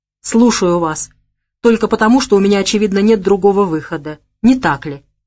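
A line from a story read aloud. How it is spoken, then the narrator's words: Grumbling. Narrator (Russian): буркнул он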